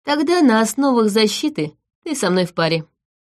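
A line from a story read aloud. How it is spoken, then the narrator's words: Calm. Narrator (Russian): спокойно произнес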